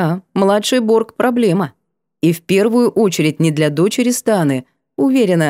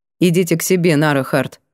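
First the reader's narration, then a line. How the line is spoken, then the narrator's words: Cold. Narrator (Russian): произнесла холодно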